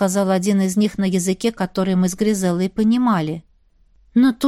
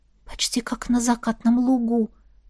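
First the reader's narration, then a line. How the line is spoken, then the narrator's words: Quiet. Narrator (Russian): тихо произнесла я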